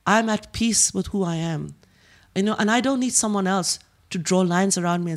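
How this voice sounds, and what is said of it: Speaks with a foreign accent. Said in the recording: “hear my accent ... I am from the East and the West.”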